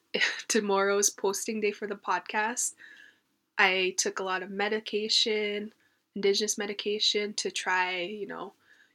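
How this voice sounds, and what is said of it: Sick, unwell-sounding voice. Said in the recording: “I'm sick, as you can tell by my voice ... my voice sounded way worse like a couple days ago”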